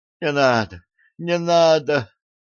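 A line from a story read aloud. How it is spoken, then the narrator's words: Pleading. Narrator (Russian): взмолилась она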